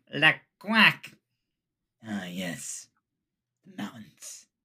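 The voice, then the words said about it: Voice like the G-Force mole. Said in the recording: “The voice sounds exactly like, have you seen that movie of the little hamsters ... G-Force ... I think of the mole, like whenever you do the voice.”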